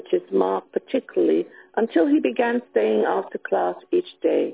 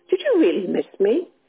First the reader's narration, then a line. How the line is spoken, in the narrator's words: lit up eagerly as he replied